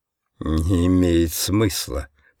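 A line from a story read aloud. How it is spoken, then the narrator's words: Mutter. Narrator (Russian): пробормотал он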